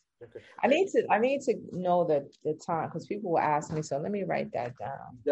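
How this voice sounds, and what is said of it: New York accent. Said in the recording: “I hear an accent too. Are you a New York native?”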